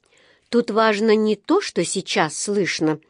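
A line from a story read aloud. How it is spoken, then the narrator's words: Gloomy. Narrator (Russian): мрачно ответила миссис Бёрд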